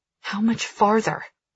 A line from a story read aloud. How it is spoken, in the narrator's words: I whisper